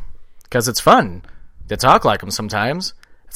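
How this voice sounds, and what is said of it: Usual voice. Nothing is said of it.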